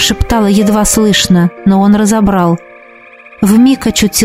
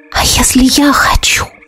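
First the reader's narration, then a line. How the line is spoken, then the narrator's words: Entranced whisper. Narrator (Russian): прошептала я, загипнотизированная его взглядом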